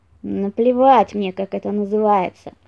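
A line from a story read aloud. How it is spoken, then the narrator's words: Fox grumbling. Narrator (Russian): проворчал лис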